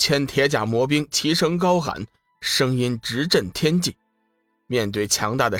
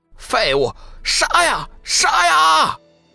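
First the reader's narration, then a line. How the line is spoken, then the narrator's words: Cold laugh. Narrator (Chinese): 龙宇嘿嘿冷笑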